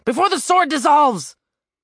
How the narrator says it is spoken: Sobbing, Randolph

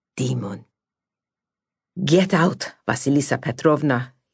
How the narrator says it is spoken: he said through gritted teeth

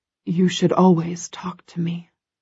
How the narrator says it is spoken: he whispers

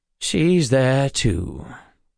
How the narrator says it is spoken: Call said with a bored sigh

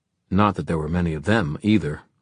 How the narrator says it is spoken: Livy added grimly

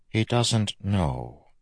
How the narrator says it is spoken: Vendel said softly

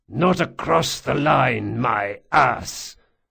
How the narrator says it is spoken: Marcos spat

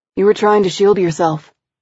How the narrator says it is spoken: said quickly, cutting me off

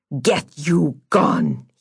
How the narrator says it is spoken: he snarled

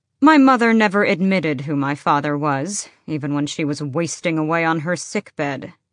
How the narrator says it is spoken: Adian said flatly

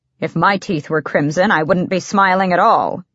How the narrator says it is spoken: said

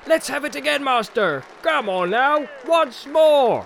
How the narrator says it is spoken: began to shout

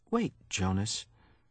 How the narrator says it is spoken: Mother said gently

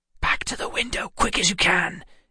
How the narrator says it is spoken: Emma hissed

